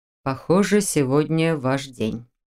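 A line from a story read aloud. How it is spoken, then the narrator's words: Muttering. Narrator (Russian): пробормотал ректор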